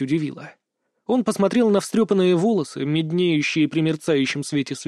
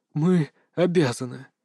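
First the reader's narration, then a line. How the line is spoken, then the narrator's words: Muffled, hollow. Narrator (Russian): глухо произнесла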